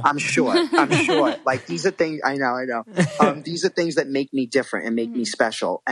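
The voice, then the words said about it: New York accent. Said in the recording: “I have this accent. I have this New York, swag about me ... I'm a New Yorker”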